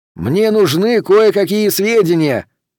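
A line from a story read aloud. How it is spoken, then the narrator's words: Shouted. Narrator (Russian): прокричал Пендергаст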